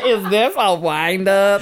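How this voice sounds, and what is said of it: Put-on American accent. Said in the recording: “What in that American accent?”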